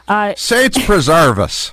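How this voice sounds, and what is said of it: Put-on Irish accent. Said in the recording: “how he's going to do his Irish accent at any second ... There it is.”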